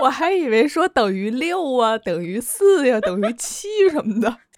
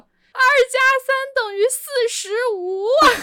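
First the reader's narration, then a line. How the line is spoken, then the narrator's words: Loud. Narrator (Chinese): 很大声的说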